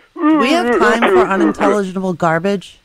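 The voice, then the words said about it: Imitates another person's voice. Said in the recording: “That's your impression of Mike Sutter? I need some work.”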